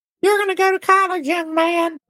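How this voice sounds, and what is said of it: Impression of his mother. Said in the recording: “my best impersonation of my mom”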